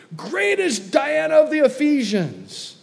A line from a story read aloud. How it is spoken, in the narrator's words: they were full of wrath and cried out saying